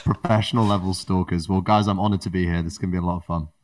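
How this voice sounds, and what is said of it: British accent. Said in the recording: “how do you develop that accent ... Sounds as British as they come”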